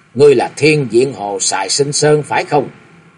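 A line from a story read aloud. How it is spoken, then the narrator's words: Cold question. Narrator (Vietnamese): Chàng chợt nhớ ra ngay rồi lạnh lùng hỏi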